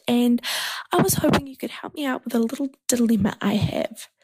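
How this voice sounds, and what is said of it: New Zealand accent. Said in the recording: “my accent, I'm from New Zealand”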